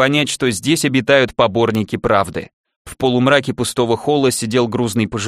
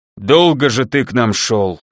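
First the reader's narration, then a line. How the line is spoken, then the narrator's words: Displeased bass, doorkeeper. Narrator (Russian): Недовольно пробасил привратник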